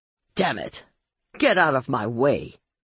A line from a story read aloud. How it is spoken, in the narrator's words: Marlowe snapped